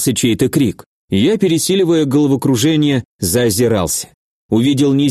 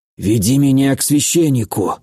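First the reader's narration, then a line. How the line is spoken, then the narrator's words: Hoarse. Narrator (Russian): хрипло сказал я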